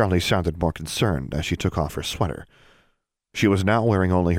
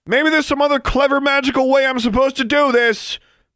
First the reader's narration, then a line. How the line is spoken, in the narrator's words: shouted into the night